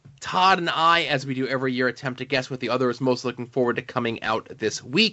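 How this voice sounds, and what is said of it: Very fast speech. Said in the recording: “I'm talking too fast”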